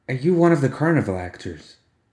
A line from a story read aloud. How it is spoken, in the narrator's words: Another accent slid smoothly into place